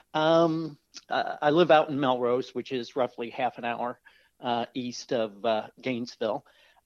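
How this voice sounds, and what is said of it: Midwestern American accent. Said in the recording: “Folks can certainly tell from my accent. I'm a Midwesterner. I'm from Northern Indiana”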